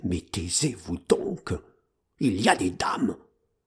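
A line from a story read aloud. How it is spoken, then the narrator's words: Answered in a low voice. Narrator (French): me répondit à voix basse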